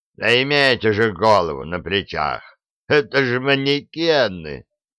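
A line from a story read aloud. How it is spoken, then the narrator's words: Laughing. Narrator (Russian): хохотнул Фрезби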